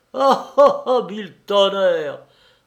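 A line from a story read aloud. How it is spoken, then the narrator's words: Bellowed. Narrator (French): vociféra-t-il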